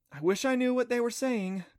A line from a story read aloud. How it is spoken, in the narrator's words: Clancy sighed